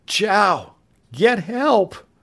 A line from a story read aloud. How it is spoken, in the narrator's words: Summoning all his strength, Tom croaked out weakly